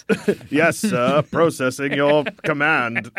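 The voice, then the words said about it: Classy-sounding computer voice accent. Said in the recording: “I like my computer's accent. He's got a sort of class to him”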